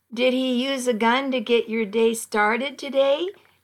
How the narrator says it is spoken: asked, giggling

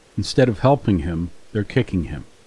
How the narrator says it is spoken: Destiny said

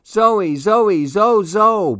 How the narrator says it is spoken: Baby Louie shouted

